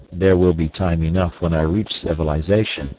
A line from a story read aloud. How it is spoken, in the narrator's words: said Tarzan